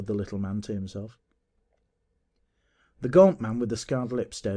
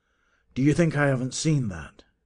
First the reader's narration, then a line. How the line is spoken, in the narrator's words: he snarled